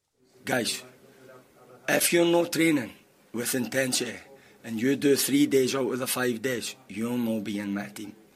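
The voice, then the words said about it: Scottish accent with mixed hints. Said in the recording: “Is he Scottish? ... He is Scottish. Did you hear the hints of New York and Spanish”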